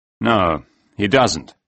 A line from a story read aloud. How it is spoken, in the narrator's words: said Case